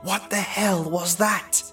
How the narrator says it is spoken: Andy whispered nervously

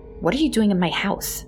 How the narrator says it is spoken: I asked

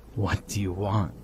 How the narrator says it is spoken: I choked

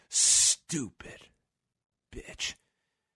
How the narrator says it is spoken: Orton whispers in his ear

